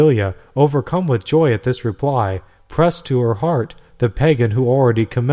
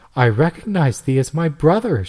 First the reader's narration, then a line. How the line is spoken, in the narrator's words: she exclaimed